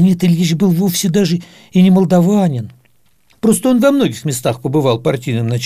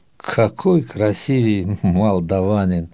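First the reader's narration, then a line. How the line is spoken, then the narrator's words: Amused, thoughtful. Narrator (Russian): товарищ Сталин усмехнулся в усы и сказал задумчиво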